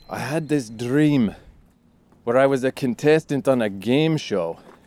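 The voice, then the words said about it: Weak Scottish accent imitating Ewan McGregor. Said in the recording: “Ewan McGregor ... My Scottish accent's not that great.”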